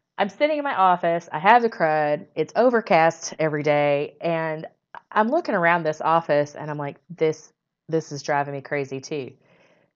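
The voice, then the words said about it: Hoarse, croaky voice. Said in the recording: “I have had the crud, and it's been those kind of just coughing, awful cruds... I already sound like I have a frog in my throat”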